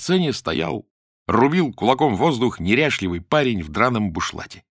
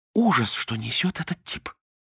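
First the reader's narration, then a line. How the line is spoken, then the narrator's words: Whisper. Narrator (Russian): прошептала Лидка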